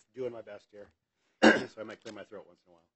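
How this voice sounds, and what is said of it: Voice affected by a cold. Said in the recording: “I've got a bit of a cold, so I'm sorry about my voice.”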